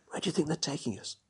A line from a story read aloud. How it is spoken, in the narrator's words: I whispered